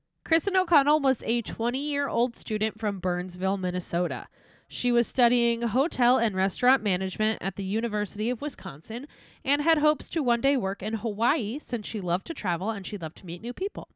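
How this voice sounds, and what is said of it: Serious, somber narrating tone. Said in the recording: “serious voice”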